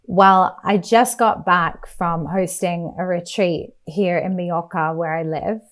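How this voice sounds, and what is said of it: Slightly croaky, husky voice. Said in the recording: “my voice is a little bit like sexy and croaky”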